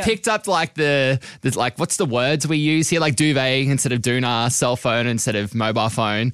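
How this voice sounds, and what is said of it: Mild Australian accent. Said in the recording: “is Australian. Actually, your accent isn't, well, I don't think it's so strong to me now”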